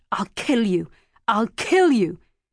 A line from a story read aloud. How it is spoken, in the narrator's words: cried, very hard, teeth bared, eyes closed, like a little boy who's just felt shocking pain